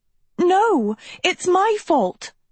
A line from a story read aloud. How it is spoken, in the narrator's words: Sophie cried